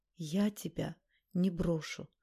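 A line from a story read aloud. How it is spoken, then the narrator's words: Whisper. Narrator (Russian): прошептала Наташа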